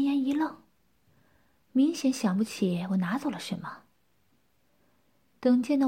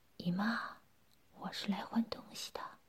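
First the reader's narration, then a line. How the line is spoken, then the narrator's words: Hushed low voice. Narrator (Chinese): 我把声音同样压得很低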